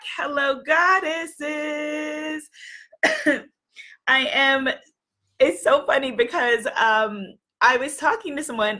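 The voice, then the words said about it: Recovering from a lost voice. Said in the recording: “My voice is almost back ... how did you lose your voice?”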